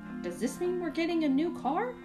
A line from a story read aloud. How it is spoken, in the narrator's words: I called out